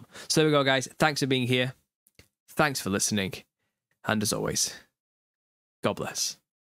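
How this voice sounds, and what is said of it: Tired, worn-out voice. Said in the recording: “I'm tired. I need to rest. My voice is going.”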